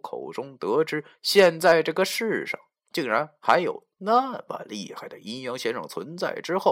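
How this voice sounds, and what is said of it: Usual voice. Nothing is said of it.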